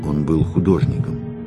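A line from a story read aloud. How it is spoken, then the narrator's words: Calm now. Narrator (Russian): уже спокойно произнесла она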